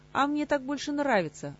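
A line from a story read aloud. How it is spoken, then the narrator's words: Snapping retort. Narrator (Russian): огрызнулся Кантор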